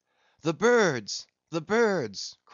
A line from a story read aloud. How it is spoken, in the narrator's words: cried Tashtego